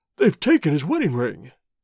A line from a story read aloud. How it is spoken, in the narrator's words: he gasped